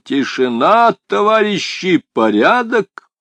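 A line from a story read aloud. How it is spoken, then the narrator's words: Powerful voice. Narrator (Russian): Кашфула сказал бы своим мощным голосом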